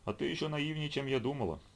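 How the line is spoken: Sighing. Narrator (Russian): вздохнул Черный

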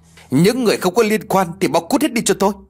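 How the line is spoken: Uncontrolled angry shouting. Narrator (Vietnamese): Không làm chủ được cảm xúc của mình, Lê lên tiếng quát tháo

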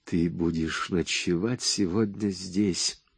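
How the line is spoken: Whisper. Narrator (Russian): прошептала она

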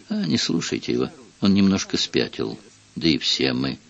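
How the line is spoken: Muttered to himself. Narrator (Russian): Красивый мужчина, некий Бюсси, пробормотал как бы про себя

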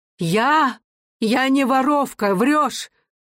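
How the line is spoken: Full-throated indignant shout. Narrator (Russian): крикнула она всей грудью

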